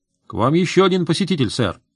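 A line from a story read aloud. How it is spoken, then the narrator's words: Cheerful report. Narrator (Russian): бодро доложил референт-ординарец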